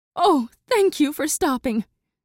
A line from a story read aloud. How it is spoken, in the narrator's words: the librarian cries